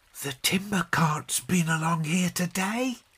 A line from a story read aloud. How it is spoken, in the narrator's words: he whispered presently